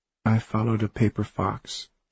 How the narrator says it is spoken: Alice said quietly

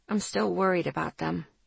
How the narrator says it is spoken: I muttered

